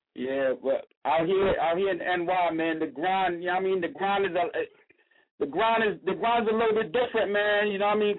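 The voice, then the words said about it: Thick New York accent. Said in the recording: “I'm from New York, man. You hear the accent? ... Yeah, I hear it. It's real thick. It's real thick, player.”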